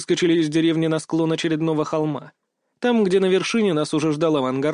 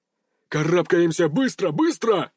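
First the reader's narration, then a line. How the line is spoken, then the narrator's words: Barked command. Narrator (Russian): рявкнул капитан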